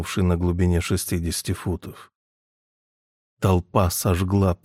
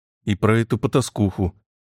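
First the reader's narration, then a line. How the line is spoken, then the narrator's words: Snapping small woman. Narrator (Russian): огрызнулась маленькая женщина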